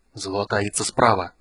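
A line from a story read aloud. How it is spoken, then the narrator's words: Whisper. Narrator (Russian): прошептал Рейслин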